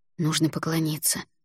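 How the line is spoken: Whisper. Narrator (Russian): шепнул Альгидрас

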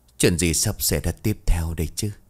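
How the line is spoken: Grumbling sigh. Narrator (Vietnamese): Sư lầu bầu thở dài

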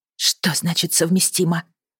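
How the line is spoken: Whispered. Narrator (Russian): прошептала

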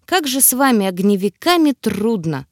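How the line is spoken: Sighing. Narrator (Russian): вздохнул Тьерри

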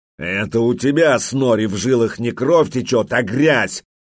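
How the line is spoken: Angry growl. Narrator (Russian): гневно зарычал Олаф

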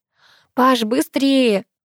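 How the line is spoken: Shout. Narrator (Russian): выкрикнула я

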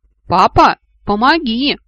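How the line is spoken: Full-throated distant yell. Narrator (Russian): во все горло заорал он оттуда

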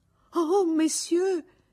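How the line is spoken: Exclaiming. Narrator (Italian): esclamò Victorine

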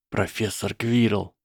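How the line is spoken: Whispered. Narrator (Russian): прошептал Гарри

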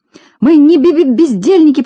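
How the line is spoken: Faltering, near tears. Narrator (Russian): пролепетала, чуть не плача Селедочка

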